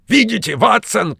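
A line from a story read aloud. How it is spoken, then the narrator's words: Shouting. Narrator (Russian): кричал он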